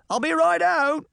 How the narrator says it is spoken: a voice shouted

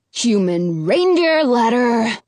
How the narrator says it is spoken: Ralph growls

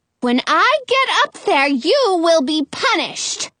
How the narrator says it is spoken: Frau Gothel hollers

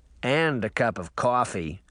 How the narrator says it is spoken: Sabrina grumbled

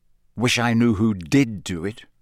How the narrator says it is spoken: said Harry bitterly

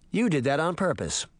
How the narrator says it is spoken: she said, as she calmly

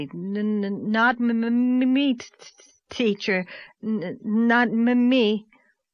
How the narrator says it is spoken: Joe Sloane stuttered out wildly

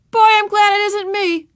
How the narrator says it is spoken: Ramona heard Davy's joyful shout

